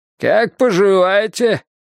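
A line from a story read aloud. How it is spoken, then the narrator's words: Shouted, joyful greeting. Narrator (Russian): прокричал он, словно они несколько лет не виделись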